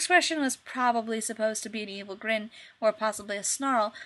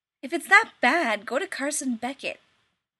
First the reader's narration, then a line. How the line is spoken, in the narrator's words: Rodney snapped